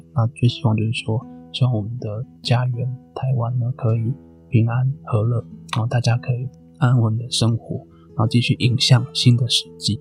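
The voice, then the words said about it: Soft, quiet hushed speaking. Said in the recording (Chinese): “现在我家里都睡，所以我讲话也都小小声的”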